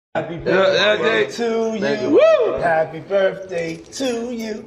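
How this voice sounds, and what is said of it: Imitates another person's singing voice. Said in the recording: “his best Marilyn Monroe impression”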